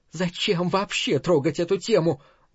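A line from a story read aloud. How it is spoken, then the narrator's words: Very quiet, voice breaking. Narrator (Russian): голос ее сорвался, хотя говорила она очень тихо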